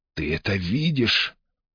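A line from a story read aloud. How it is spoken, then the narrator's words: Cracked strained voice, to himself. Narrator (Russian): треснутым голосом выдавил он, обращаясь не столько к Веронике, сколько к самому себе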